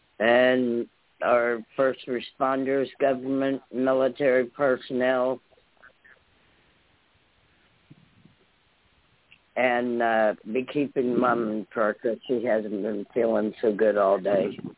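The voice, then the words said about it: Voice in poor condition. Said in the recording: “you guys can tell how my voice is tonight. It's not doing too good.”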